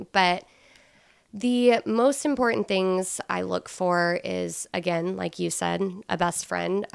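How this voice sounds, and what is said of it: Slightly scratchy voice. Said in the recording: “my voice is a little scratchy. I'm just now getting over a cold”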